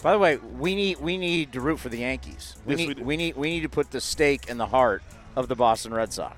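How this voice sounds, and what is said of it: Sick, strained voice. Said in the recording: “apologize for my voice. I'm sick.”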